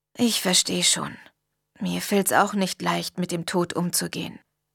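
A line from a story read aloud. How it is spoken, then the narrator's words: Quiet. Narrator (German): sagte er leise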